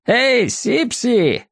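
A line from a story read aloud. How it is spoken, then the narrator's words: Distant shout. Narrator (Russian): закричал кто-то из пассажиров лодок, плывущих впереди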